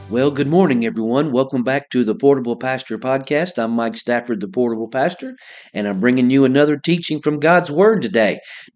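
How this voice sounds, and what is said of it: Congested voice from head cold. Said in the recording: “apologize for my voice. Got a little bit of a head cold today, and I may have to turn my head and cough from time to time”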